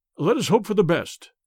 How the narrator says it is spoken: replied Tennington

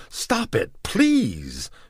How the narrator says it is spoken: she begged

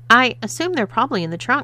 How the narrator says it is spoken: stammered Haley, quickly changing the subject

